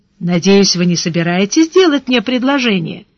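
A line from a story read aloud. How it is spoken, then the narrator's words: Smiling, almost cheerful. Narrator (Russian): Она улыбалась почти весело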